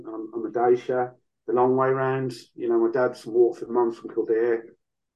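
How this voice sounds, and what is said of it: Irish accent with Birmingham tinge. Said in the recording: “I never quite lost that bit of Brum in the accent, and the accent's just become more mongrel over the years.”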